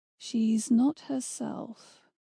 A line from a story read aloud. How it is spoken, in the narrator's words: Jack said quietly